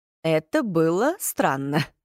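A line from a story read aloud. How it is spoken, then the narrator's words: Laughing. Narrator (Russian): засмеялся Джаспер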